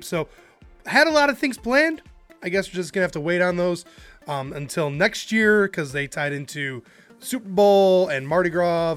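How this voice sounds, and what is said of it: Voice still recovering from cough. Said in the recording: “still have a cough that's lingering. You can hear my voice is still getting there, trying to kind of get back in shape.”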